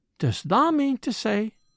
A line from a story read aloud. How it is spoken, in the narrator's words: cried Martha, with wide open eyes